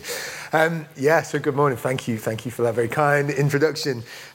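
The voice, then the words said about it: Foreign accent. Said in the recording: “translate my accent. I might get some words wrong.”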